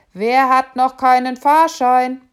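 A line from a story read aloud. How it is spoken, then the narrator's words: Loud question. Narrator (German): fragte laut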